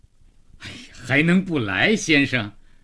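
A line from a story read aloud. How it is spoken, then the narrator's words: Awkward, joyless. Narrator (Chinese): 祥子似乎连怎么笑都忘了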